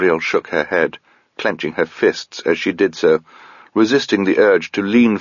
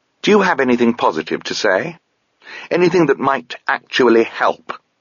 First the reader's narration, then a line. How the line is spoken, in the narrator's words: she snapped